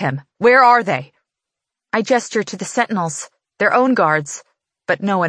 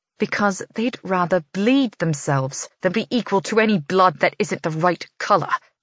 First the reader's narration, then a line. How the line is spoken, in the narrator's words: she hisses